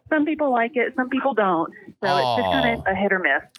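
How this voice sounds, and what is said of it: Mississippi Gulf Coast Southern accent. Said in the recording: “I'm originally from the Mississippi Gulf Coast ... I could tell with that beautiful accent that you have there that you weren't from, Skokie ... some people have caught on to the accent”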